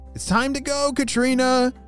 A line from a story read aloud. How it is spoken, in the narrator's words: shouted her parents